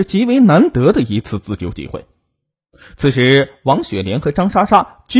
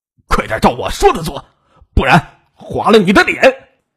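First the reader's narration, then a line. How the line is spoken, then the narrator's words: Tense angry rebuke. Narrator (Chinese): 唐武 紧张的怒斥道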